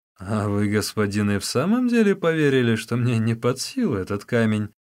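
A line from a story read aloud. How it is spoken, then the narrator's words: Laughing. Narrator (Russian): засмеялся Усун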